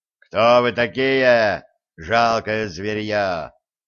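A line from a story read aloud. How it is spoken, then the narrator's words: Menacing roar from afar. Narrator (Russian): Еще издалека грозно рыкнул он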